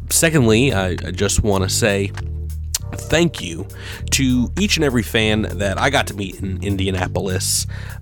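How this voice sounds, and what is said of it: Voice slightly off from a cold. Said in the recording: “I got a bit of the famous con crud you hear so much about. A little cold, so sorry if my voice is a bit out of whack.”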